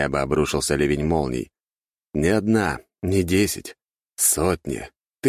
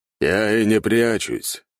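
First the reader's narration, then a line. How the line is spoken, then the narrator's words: Calm, carrying voice. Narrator (Russian): спокойно ответил Кроу, и его голос долетел до меня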